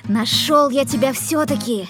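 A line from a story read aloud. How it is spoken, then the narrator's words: Shouting. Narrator (Russian): закричал он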